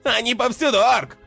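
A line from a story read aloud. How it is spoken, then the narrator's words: Shout. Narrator (Russian): крикнул Мерлин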